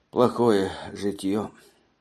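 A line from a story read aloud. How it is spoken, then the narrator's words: Sad. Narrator (Russian): заговорил печально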